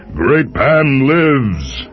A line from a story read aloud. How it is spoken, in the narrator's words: cried